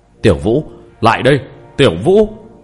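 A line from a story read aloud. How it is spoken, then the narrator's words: Loud shout. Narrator (Vietnamese): lớn tiếng quát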